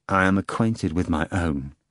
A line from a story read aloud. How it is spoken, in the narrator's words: the procurator said quietly